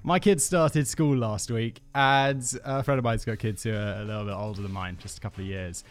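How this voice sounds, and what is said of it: Stuffy, congested voice. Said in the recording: “I have a cold.”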